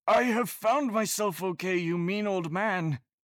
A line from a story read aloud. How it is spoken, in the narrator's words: Hagrid yelled